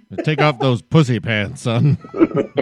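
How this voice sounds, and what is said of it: Imitates an old golf club member. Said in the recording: “that was a good impersonation of someone at Augusta”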